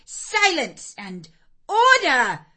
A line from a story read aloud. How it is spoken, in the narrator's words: A great tumult succeeded for some minutes, during which Miss Miller repeatedly exclaimed